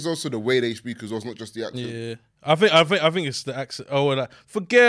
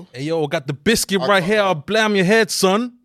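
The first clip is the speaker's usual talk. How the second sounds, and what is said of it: Put-on New York accent. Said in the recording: “Can you do your best New York accent? ... that does not sound like”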